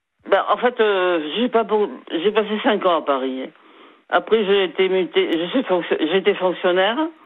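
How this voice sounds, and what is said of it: Slight southwestern French accent. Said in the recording (French): “j'entends le petit accent du sud derrière ... vous avez une petite intonation ben, du sud-ouest”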